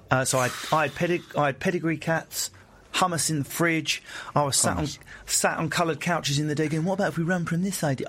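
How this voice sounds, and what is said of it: Estuary English London accent. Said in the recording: “I still sound like a moron, thank God, because it's a funny accent ... We meet in the middle in the estuary.”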